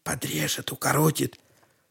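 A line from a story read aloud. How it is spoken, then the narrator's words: Whispering to friend. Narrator (Russian): шептал другу Степа Дудин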